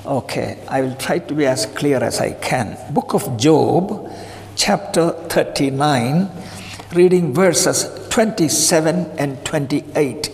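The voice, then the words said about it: Indian-accented English. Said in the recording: “a bit of accent I have, that is Indian accent,”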